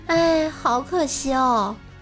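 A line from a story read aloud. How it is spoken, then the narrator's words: Wistful sigh. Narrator (Chinese): 他女朋友感叹道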